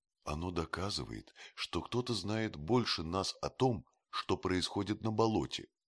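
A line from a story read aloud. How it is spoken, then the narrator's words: Plain. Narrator (Russian): сказал доктор Мортимер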